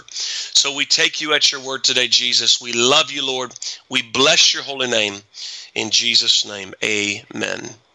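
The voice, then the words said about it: Hoarse, throat-strained voice. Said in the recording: “forgive me for clearing my throat. I've been speaking quite a bit, so my throat is hoarse”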